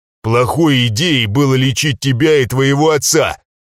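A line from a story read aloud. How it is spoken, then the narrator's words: Barked. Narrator (Russian): рявкнул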